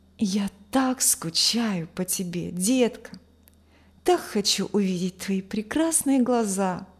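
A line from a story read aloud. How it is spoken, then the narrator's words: Whispering into phone. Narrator (Russian): шептал парень в телефон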